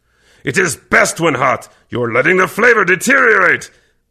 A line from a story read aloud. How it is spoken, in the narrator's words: Kervec growled deeply